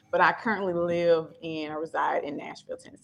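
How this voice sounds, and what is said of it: Memphis Southern accent. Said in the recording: “I should have known from the accent ... This is the Memphis accent.”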